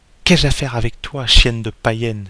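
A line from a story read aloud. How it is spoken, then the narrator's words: Exclaiming. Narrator (French): s'écria-t-il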